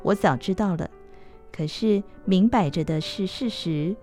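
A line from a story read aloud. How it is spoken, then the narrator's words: Sighing. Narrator (Chinese): 柳原叹道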